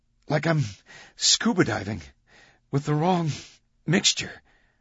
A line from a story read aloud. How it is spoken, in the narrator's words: Victoria choked